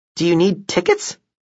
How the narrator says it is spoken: I chuckled

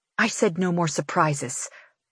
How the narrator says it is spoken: I hiss to Davidson

